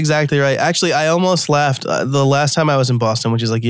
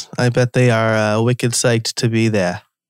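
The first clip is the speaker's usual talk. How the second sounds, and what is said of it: Put-on Boston accent. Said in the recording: “That's my best Boston accent.”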